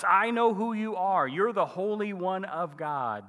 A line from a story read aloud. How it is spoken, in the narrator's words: a demon-possessed guy is present in the synagogue meeting that morning and shouts